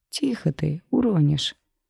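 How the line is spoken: Laughing. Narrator (Russian): рассмеялся Саймон

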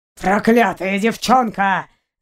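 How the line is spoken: Growl. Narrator (Russian): зарычал ее похититель

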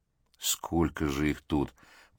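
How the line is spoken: Grumbling. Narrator (Russian): проворчал Давыдов

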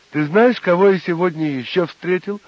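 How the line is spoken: Joyful announcement. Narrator (Russian): радостно возвестил он

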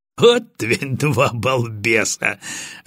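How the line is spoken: Laughing. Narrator (Russian): рассмеялся Батоныч

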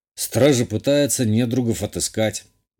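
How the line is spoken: Gruff mutter. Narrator (Russian): буркнул я

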